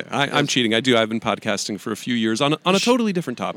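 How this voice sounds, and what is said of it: Smooth radio-style voice. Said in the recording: “You have a real radio voice. You have a good podcast voice.”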